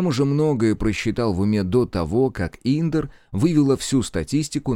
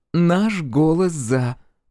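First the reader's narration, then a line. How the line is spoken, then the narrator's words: Tender motherly voice. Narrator (Russian): произносит она ласково, точно ваша матушка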